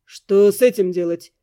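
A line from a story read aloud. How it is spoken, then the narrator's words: Gloomy question. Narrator (Russian): мрачно спросил Эддингтон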